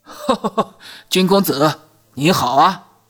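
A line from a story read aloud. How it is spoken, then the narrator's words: Hearty laughter. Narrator (Chinese): 其中一名立刻大笑着迎了上来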